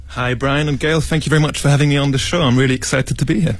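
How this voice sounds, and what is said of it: British accent. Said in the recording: “Oh, that British accent. ... British accent”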